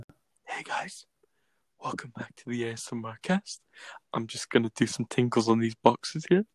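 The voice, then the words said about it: Soft whispery ASMR voice. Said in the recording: “do a quick ASMR voice?”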